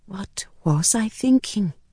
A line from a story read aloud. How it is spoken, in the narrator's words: whispered